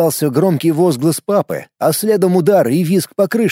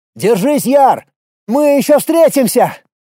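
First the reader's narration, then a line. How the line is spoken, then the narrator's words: Hasty shout. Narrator (Russian): успел закричать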